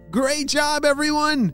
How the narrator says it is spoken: shouted Apollo

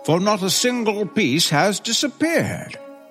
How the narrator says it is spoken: cried the man

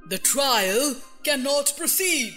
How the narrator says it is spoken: said the king in a very grave voice

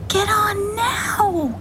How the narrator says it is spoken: she shouted through the sandstorm

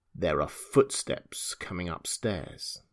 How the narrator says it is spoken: he said in a low voice

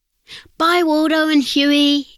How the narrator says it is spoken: everyone shouted

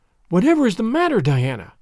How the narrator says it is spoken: cried Anne

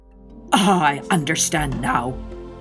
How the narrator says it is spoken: muttered the good man

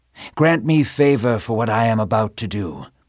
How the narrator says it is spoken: he whispered

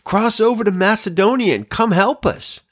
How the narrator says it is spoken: a Macedonian man was standing and pleading with him

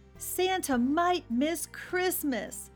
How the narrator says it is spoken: shouted the elves

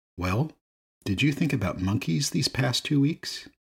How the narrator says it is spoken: The monk calmly asked

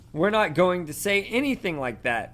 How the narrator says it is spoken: Harry shouted

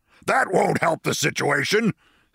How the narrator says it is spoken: snapped the general with cold military logic

